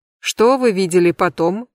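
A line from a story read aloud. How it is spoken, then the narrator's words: Plain. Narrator (Russian): спросила женщина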